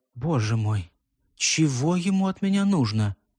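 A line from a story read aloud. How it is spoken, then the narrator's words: Deeply annoyed whisper. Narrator (Russian): Крайняя досада отразилась на чертах госпожи Гарнье, когда она прошептала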